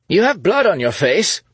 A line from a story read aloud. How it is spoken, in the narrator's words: Scott shouted after her